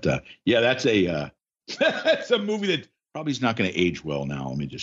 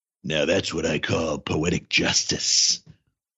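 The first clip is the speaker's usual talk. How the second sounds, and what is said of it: Bad Charles Bronson impression. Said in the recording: “my really bad Bronson impression.”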